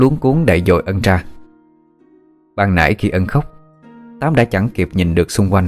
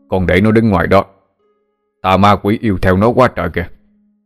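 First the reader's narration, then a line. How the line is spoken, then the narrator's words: Shouted. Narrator (Vietnamese): thầy Úm liền quát lên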